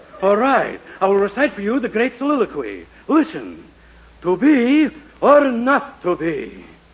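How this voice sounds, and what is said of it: Phony put-on theatrical accent. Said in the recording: “you take that phony accent with you”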